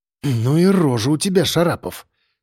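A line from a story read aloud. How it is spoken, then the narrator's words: Grumbling. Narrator (Russian): проворчал Сальников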